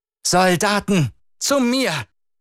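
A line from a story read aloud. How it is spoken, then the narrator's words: Woman calling out. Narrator (German): rief sie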